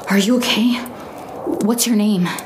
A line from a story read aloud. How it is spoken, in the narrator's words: I asked breathlessly